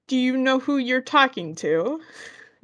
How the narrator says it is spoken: Grape laughs even more, and she's like

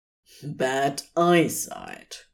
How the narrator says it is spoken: Crowley claimed firmly

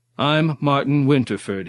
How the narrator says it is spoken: he reaffirmed more loudly, trying to bluff his way out of whatever situation he had blundered into

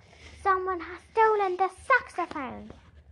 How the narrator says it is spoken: Jack Frost yelled

